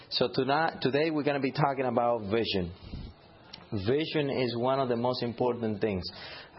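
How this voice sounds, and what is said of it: Slight Cuban Spanish accent. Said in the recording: “If you notice on a little bit of accents, it's because I'm Cuban, coming from the islands of Cuban”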